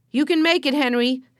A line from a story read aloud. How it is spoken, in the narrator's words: yelled Joe